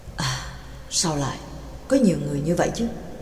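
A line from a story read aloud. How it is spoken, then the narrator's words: Soft voice. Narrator (Vietnamese): Pháp sư khẽ nói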